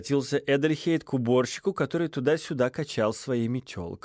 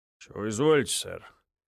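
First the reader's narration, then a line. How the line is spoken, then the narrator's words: Gruff grumble. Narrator (Russian): буркнул он из-под нахмуренных бровей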